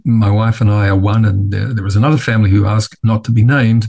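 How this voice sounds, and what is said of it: Non-American accent. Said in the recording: “as you can tell from my accent, not”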